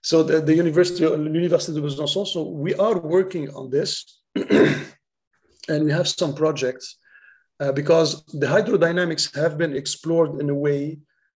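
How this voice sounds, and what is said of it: French accent. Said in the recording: “As soon as I talk about something French, the French accent comes back.”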